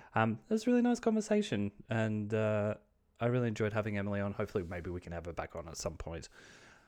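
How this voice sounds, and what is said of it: Australian accent. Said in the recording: “my Australian accent”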